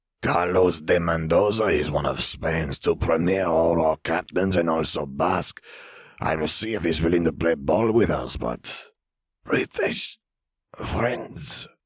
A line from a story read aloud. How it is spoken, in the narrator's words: Vare rasped